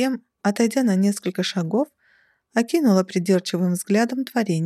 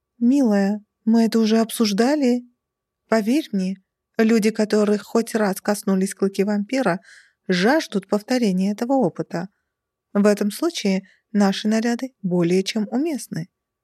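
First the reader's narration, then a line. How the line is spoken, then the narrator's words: Calm reply. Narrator (Russian): спокойно откликнулась Дилара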